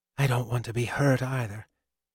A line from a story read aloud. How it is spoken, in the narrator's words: murmured